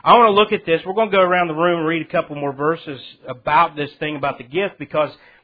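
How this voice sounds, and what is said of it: Southern US accent. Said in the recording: “excuse my southern accent”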